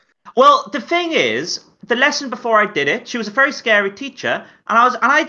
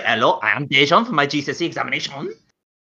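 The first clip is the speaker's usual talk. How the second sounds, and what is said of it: English spoken with a French accent. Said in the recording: “I spoke English with a French accent.”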